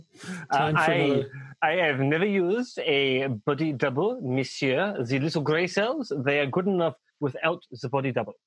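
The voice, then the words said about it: Hercule Poirot-style French accent. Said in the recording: “I'm doing Hercule Poirot ... apparently it's French ... That's what's sounding more French”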